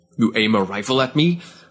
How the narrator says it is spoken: Avkanan spat

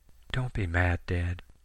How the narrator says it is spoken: Sammy whispered over the receiver

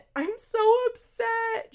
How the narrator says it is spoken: she says as she sobs

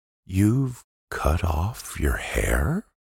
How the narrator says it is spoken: asked Jim slowly

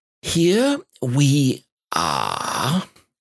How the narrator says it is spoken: said Rabbit, very slowly and carefully

